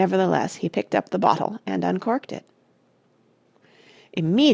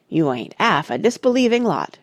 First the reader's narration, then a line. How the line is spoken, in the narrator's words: grumbled Ethelred